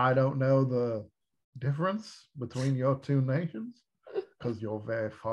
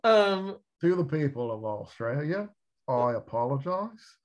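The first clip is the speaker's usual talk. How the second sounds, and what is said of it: Put-on Australian accent. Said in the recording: “wow, very good Australian accent. That is not easy to do.”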